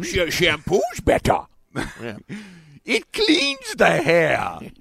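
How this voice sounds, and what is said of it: Adam Sandler impression. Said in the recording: “Adam Sandler ... your impression”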